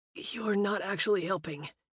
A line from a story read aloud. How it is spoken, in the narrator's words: he wheezed as she dropped kisses along the sensitive skin